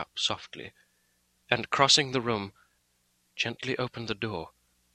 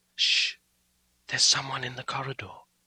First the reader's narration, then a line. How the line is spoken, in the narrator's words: she whispered in my ear